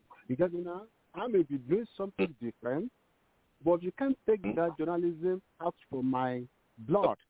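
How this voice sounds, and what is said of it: Nigerian-accented English. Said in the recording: “you graduated from a Nigerian university ... they can understand your accent better”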